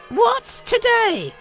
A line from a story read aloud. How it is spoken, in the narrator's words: cried Scrooge, calling downward to a boy in Sunday clothes